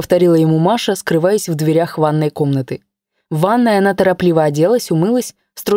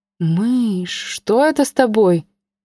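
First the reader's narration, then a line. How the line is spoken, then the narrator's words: Frightened question. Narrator (Russian): Глядя на нее испуганно, спросила Инна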